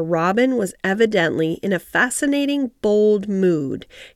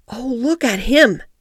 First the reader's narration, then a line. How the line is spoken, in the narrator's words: exclaimed Mary